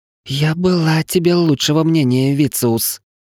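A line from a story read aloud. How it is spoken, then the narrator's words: Angry hiss. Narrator (Russian): злобно прошипела рыжая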